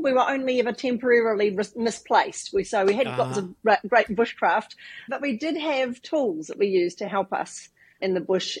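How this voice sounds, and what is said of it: New Zealand accent. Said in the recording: “as you can tell from my accent ... I do come from New Zealand”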